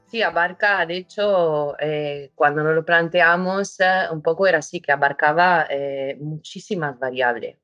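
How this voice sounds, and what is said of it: Spanish with an Italian accent. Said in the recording (Spanish): “acento italiano ... Muy, italiano como acento.”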